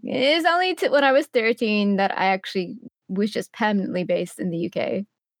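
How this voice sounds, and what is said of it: Mixed Emirati and British accent. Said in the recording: “if you can tell by the accent, it's a bit of a mixture of everything in between, kind of like both there and here kind of thing ... everyone makes fun of my accent quite a bit”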